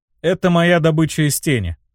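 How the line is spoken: Calm. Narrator (Russian): спокойно ответил я

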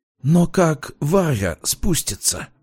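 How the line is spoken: Whisper. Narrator (Russian): прошептал Полиньяк

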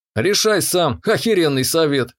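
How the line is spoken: Snorting remark. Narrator (Russian): хмыкнул я

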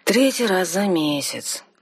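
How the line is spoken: Glum explanation. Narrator (Russian): уныло пояснил бригадир королевских строителей

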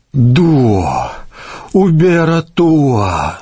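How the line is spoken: Moaning. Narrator (Russian): стонал он

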